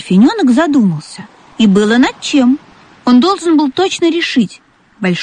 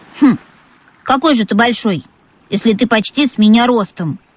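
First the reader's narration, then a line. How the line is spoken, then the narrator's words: Young dolphin's snort. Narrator (Russian): фыркнул дельфиненок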